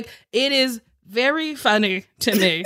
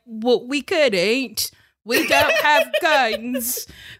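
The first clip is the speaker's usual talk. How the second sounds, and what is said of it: Bad put-on English accent. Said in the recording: “That was a terrible English accent.”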